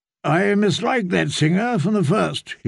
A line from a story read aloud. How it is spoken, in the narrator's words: he grumbled